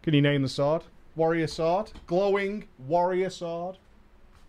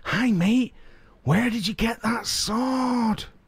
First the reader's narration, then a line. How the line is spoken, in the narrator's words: I whispered him